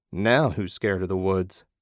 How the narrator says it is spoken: his partner laughed

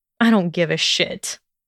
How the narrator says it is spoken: he snorted

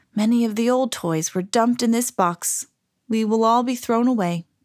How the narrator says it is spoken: Willy sighed

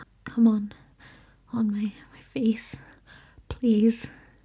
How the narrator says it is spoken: added, voice barely above a whisper

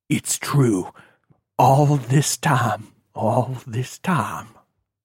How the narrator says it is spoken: he whispered

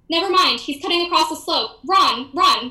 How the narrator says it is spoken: Joe screamed, filled with alarm

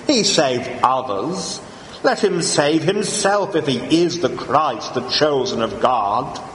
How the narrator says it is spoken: the rulers with them sneered, saying

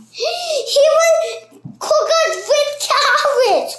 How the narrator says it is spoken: cried the third

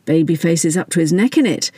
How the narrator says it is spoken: Steve said with a wry laugh

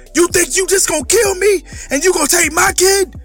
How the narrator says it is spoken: Zeke screamed

